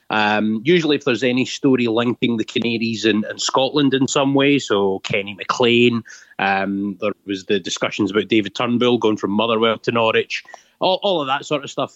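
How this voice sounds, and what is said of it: Scottish accent. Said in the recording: “despite the accent maybe being a bit misleading ... I'm back in Scotland now”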